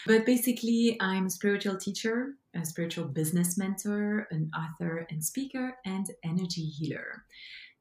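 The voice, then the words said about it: Belgian French accent in English. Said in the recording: “as you can hear from my beautiful and charming accent. This is my mother tongue. I come from Belgium”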